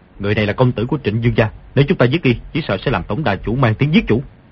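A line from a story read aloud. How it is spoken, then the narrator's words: Lowered voice. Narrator (Vietnamese): hạ giọng nói với Ngô Lục Kỳ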